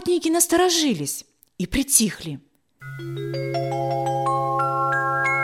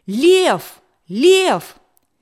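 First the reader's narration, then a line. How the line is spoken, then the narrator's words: Sudden shout. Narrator (Russian): Вдруг кто-то закричал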